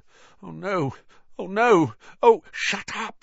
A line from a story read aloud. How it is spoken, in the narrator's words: said Harry frantically